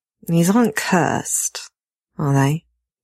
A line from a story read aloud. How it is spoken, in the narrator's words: He asks wearily